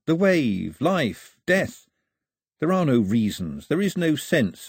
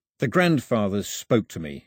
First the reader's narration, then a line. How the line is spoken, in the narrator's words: he mumbled